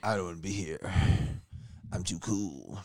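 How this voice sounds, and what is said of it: Imitates another person's voice. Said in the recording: “That's my impression of Jorge.”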